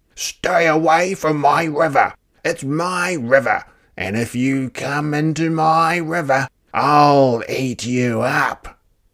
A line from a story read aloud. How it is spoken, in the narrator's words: he shouted to the creatures of the forest